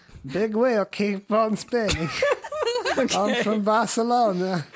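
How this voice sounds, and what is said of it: Funny put-on accent. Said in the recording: “a funny accent”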